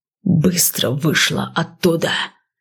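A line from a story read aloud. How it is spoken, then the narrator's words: Fierce hiss. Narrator (Russian): свирепо прошипели от дверей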